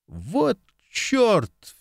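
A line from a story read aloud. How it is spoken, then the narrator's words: Exasperated exclamation. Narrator (Russian): в сердцах воскликнул Марк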